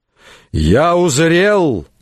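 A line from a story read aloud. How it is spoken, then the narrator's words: Barking man. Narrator (Russian): рявкнул он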